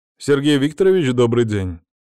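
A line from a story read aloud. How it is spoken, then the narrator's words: Very loud voice. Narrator (Russian): Голос разнесся так громко, что я даже поморщился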